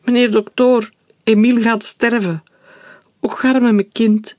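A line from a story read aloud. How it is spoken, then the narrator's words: Wailing. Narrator (Dutch): jammerde Maria Sylvie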